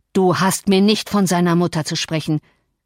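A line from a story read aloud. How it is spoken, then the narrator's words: Angry shout. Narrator (German): schrie der Herr wütend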